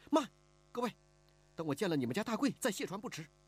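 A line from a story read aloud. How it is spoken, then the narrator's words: Anxious, urgent. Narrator (Chinese): 听见一个江匪喊着要卸船，李婉儿急了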